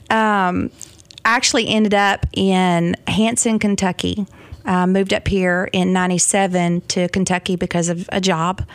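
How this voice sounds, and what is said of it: Southern American accent. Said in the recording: “I knew you had a Southern accent.”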